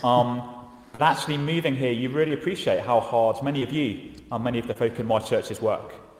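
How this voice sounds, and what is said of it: English accent. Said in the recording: “I was brought up over in England, you can probably tell from the accent”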